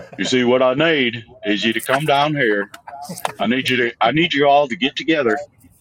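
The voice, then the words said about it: Put-on Southern accent. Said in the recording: “can you do a Southern accent while keeping the Boston accent? ... I can do any accent I need to.”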